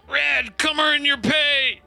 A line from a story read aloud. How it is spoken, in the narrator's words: shout